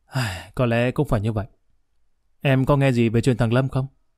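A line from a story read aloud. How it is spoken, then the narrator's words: Sighing. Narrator (Vietnamese): Nguyễn thở dài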